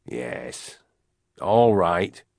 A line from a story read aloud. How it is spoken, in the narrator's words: he said, his voice still rough with annoyance